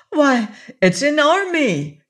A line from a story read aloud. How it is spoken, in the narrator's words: she exclaimed